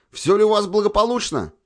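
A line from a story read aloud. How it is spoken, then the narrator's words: Shouting. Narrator (Russian): крикнул Глеб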